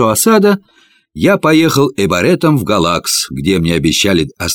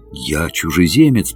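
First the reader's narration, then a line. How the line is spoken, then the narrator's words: Whisper. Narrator (Russian): прошептал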